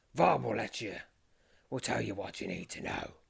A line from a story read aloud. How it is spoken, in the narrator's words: growls the captain